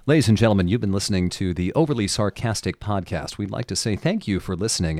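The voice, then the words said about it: Newsreader-style announcer voice. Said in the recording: “news voice.”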